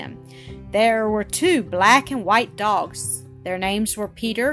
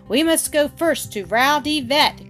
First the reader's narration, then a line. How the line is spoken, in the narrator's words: Grandfather called out